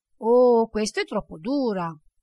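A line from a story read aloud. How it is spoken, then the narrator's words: Plain. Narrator (Italian): disse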